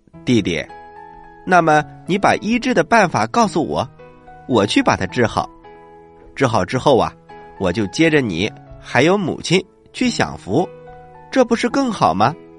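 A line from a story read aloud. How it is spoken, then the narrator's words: Very happy, eager. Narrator (Chinese): 他非常的高兴，然后立刻答应，说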